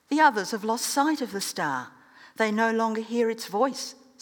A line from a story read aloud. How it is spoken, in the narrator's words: said one